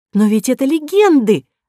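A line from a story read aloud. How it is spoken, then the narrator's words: Exclaiming. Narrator (Russian): воскликнула Кора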